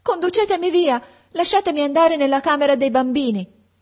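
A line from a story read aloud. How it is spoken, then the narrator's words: Shouted. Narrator (Italian): gridai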